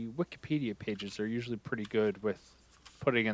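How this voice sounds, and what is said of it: Usual voice. Nothing is said of it.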